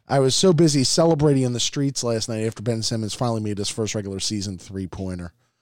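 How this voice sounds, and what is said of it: Slightly hoarse voice. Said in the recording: “part of the reason I'm a little hoarse.”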